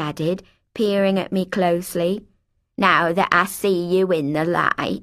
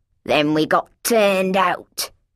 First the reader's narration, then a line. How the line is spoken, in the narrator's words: she said angrily